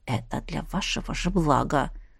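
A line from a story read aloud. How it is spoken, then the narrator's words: Whisper. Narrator (Russian): шепнул он мне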